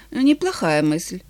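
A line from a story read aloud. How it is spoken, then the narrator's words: Sighing. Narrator (Russian): Она вздохнула и сказала вслух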